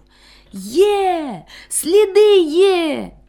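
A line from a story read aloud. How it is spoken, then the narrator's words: Loud joyful exclamation. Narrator (Ukrainian): радісно й голосно вигукнув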